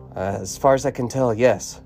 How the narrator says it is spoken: Rebecca whispered

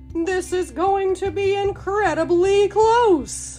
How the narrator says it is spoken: shouted the announcer

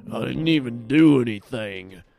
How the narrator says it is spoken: Graves moans

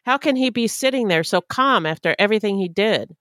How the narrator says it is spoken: one of the victims became hysterical and shouted

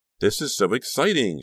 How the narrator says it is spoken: exclaimed

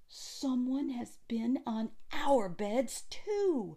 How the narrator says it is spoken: the others came running and cried

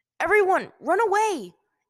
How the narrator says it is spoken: Aang yelled

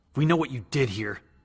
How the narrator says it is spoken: Steve spat

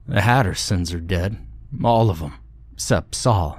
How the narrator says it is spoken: he said evenly

